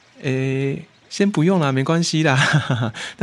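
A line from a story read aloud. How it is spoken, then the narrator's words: Smiling. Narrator (Chinese): 我就笑笑，我就说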